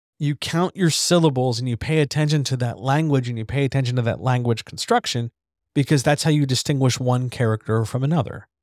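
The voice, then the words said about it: Dragged S's, hard-hit D's and T's. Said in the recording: “I tend to drag my S's. I tend to hit my D's and T's pretty hard enough to make at least the voice meter pop on my microphone ... That's my natural accent ... I also tend to turn my widths into wits, because that's where I grew up”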